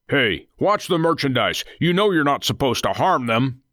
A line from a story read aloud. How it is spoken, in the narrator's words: Nathan barked